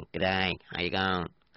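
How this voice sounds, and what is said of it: Unconvincing croaky Australian accent. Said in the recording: “I can do an Aussie one if you wish ... That's a kind of a frog sound, you know, late night frog in the pond or the dam ... That's not convincing, is it?”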